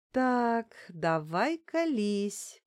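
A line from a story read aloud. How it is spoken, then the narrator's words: Drawl. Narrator (Russian): протянула я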